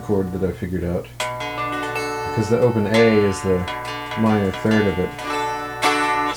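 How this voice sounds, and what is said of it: Calm public-radio announcer voice. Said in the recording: “You almost have an NPR voice, it's so good.”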